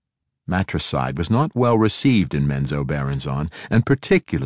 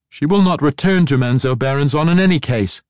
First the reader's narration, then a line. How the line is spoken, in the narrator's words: Kiri shouted